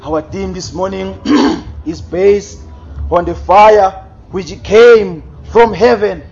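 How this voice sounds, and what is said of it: Hoarse, fading voice. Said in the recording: “Looks like I'm losing my voice.”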